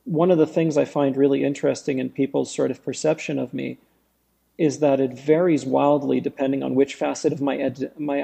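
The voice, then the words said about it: Accent passing as John Smith. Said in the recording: “this accent, where I could call you up and tell you my name was John Smith and you'd probably believe me”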